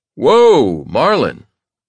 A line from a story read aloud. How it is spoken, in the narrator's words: I exclaim